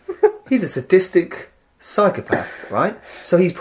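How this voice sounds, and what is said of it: Usual voice. Nothing is said of it.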